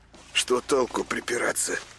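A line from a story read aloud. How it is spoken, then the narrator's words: Conciliatory mutter. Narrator (Russian): примирительно бормотал он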